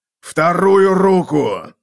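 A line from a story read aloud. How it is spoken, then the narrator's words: Barked command. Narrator (Russian): рявкнул Готрек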